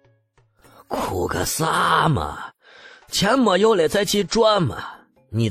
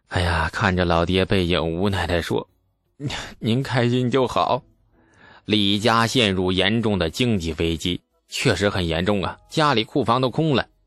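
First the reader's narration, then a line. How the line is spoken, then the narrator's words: Sighing. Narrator (Chinese): 李素叹了一口气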